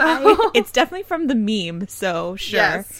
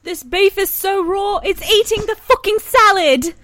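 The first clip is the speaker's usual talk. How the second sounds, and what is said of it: Convincing put-on British accent. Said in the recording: “That's a great British accent, goddamn.”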